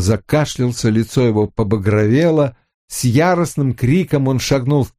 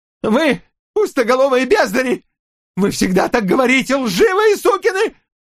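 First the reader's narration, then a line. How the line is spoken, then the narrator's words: Choking on words. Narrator (Russian): Озмиан захлебнулся собственным голосом, словно проглотил слишком большой кусок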